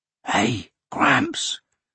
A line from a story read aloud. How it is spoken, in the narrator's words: Hoshino whispered